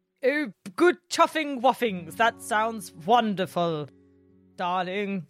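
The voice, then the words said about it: Put-on posh English accent. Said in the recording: “you can do your fancy English accent.”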